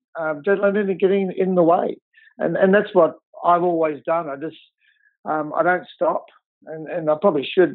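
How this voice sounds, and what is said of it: Speaker with a distinctive foreign accent. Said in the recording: “you say exactly what I'm talking about, but in a much cooler accent”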